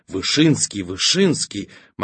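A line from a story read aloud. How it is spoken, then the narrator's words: Excited crowd whisper. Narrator (Russian): в народе порхал восторженный шепоток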